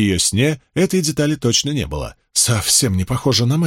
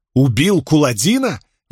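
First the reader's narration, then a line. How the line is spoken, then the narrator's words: Exclaiming. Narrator (Russian): воскликнула Найниф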